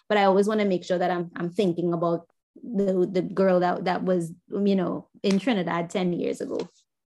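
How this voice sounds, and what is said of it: Trinidadian accent. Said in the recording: “I love your accent ... people from Trinidad”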